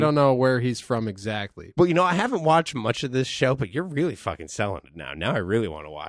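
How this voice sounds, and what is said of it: Usual voice. Nothing is said of it.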